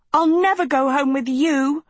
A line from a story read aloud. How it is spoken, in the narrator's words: screamed Sophie